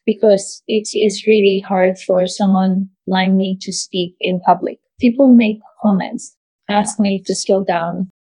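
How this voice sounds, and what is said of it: Non-American foreign accent. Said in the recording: “it's pretty clear that you're not originally from the United States ... my accent?”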